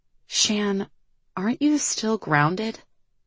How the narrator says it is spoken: Liv whispered to her

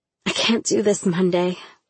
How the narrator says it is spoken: I breathed

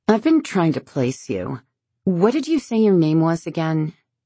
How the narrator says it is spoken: Riley, slurring her words slightly, says

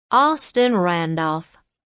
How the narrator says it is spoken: he said, his voice thick with Carolina drawl

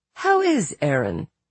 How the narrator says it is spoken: Justine laughed, a catch in her voice

